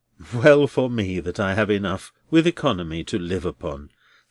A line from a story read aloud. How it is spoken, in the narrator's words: sighed Neville, half wearily and half cheerily